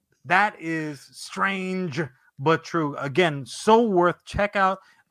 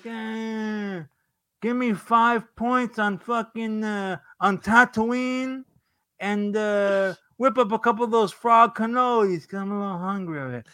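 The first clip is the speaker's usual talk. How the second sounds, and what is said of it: Bad Corleone mobster accent. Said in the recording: “It's the worst fucking Corleone accent of all time.”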